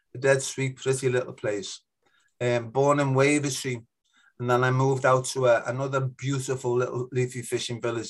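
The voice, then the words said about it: Liverpool accent. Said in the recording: “you can probably tell from my accent that I come from ... Liverpool”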